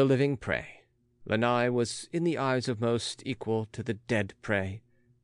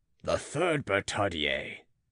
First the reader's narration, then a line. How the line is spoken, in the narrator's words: Belay sighed